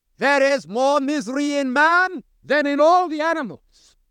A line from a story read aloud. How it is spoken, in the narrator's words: Voltaire, the French infidel, cried